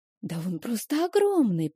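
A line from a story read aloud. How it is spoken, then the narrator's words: Whispered. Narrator (Russian): прошептала Стэсси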